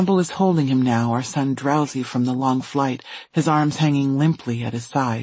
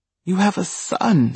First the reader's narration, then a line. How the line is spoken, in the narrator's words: she says, stuttering